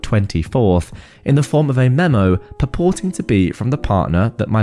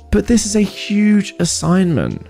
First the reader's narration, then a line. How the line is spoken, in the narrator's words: I whined